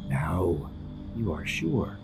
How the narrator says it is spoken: the cat purrs

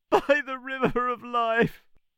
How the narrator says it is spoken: answered our tree, choked with tears

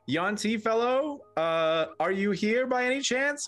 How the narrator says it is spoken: start yelling

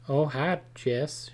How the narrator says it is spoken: she said in her slow southern drawl

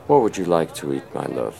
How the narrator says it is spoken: Thrym warmly asked

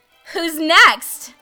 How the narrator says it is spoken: I shout

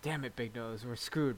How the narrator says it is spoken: muttered Yun Long

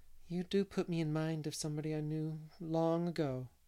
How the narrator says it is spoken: said Miss Lavender dreamily

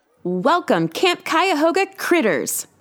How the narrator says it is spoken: the woman shouted enthusiastically, her mouth stretched wide in a welcoming smile

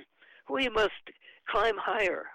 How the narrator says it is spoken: Juan Andres gasped

